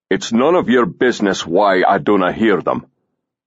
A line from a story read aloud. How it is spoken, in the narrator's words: Sirson growled